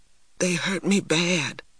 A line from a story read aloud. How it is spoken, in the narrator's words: whispered TJ